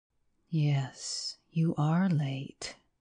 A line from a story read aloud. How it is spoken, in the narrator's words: said the man quietly